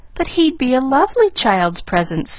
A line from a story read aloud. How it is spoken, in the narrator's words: faltered Pollyanna